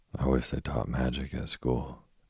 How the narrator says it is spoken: Jane sighed

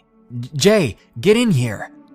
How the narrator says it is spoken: he was yelling over the bass of the music

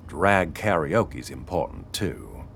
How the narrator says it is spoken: Sparky grumbled

